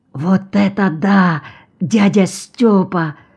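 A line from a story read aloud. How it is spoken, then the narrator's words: Whispered. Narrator (Russian): шепнул Сеня Грачик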